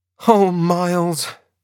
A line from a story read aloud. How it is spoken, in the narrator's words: I cried